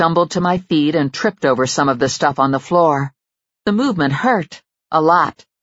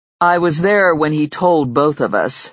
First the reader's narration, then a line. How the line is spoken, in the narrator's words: Zack said dryly